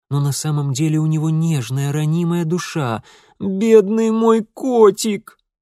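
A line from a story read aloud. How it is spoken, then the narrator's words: Moaning lament. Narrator (Russian): простонала Зинаида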